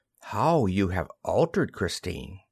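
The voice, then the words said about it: Gentle, soft-spoken delivery. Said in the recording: “In a gentle voice.”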